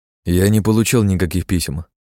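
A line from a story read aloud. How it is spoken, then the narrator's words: Calm reply. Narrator (Russian): спокойно ответил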